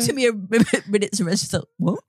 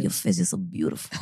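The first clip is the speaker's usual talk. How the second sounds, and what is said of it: Sultry Nigerian accent. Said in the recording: “Why the accent? He was Nigerian. ... he's putting like a ... sultry.”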